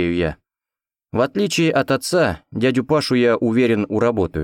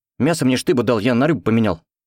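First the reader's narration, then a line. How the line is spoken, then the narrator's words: Rapid chatter. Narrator (Russian): Быстро тараторит Кондрат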